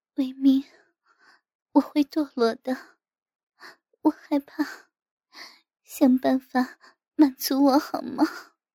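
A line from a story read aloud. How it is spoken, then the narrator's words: Dejected sigh. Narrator (Chinese): 我无比失落地叹口气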